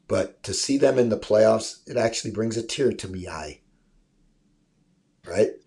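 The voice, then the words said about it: Put-on Irish accent. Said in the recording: “my Irish imitation”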